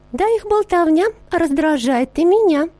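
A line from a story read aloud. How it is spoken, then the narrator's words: Sugary sweet voice, sugar bowl. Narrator (Russian): ответила сахарница сладеньким голосом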